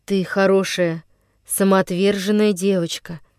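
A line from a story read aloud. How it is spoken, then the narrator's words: Tender. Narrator (Russian): произнес он, ласково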